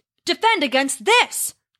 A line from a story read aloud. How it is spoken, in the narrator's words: Thor roared